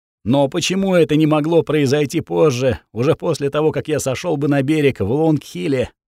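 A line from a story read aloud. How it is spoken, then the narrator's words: Moaning dwarf. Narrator (Russian): простонал карлик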